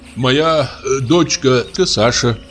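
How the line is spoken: Plain. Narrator (Russian): сказал он

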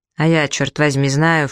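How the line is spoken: Snorting skipper. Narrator (Russian): фыркнул шкипер

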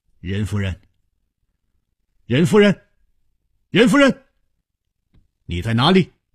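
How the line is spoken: Calling out. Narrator (Chinese): 他一面呼唤着

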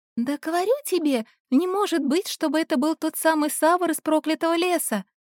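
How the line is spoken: Girl's high-pitched exclamation. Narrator (Russian): Тоненьким голосом воскликнула одна девушка

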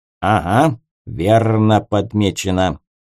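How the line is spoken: Grumbling raven. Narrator (Russian): пробурчал ворон

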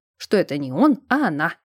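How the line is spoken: Calmer addition. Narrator (Russian): Уже более спокойно добавил Вирфальц

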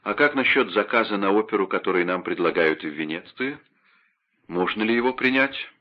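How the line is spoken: Composed calm question. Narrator (Russian): Но он взял себя в руки и спокойно спросил

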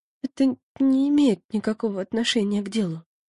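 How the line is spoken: Mumbling. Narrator (Russian): промямлила Яна

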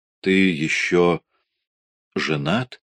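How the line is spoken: Strained. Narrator (Russian): выдавил я

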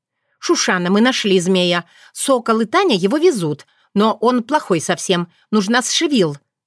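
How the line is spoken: Shouted. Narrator (Russian): крикнула она

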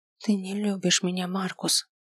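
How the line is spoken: Barely audible over roaring fire. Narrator (Russian): еле слышно проговорила она, заглушаемая ревом огня

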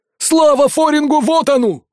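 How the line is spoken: Sudden yell. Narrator (Russian): заорал вдруг Хватти

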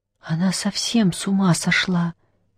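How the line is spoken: Quiet. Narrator (Russian): тихо сказала Черная Королева

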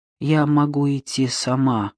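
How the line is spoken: Dejected reply. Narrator (Russian): ответила она упавшим голосом

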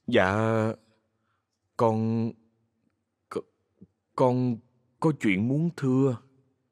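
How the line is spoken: Hesitant speech. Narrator (Vietnamese): Ngập ngừng một lát, Kha nói

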